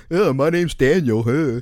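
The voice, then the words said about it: Mocking funny voice. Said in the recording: “in a funny voice”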